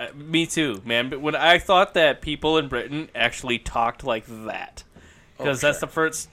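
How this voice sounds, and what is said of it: Usual voice. Nothing is said of it.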